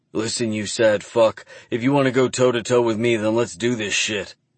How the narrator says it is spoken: growl

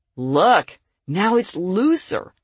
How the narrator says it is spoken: she exclaimed

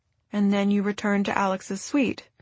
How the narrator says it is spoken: Victor murmured

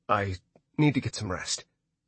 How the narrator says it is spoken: he said trying not to act cold, but knowing he was failing miserably

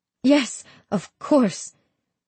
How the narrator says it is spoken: I reply hastily, wiping my eyes

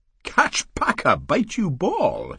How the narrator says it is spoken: she said, still laughing

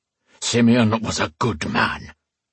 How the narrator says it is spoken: the Chosen growled

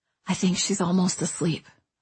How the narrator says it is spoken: Owen whispered

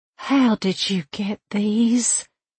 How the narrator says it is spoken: she gasped

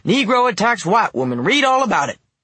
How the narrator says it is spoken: a paperboy on the platform hollering

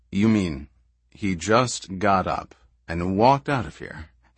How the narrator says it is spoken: asked coolly

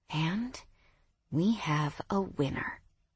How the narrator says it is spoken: I murmured

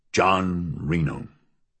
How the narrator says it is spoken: he murmured

